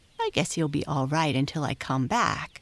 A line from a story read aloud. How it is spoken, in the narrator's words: said the coachman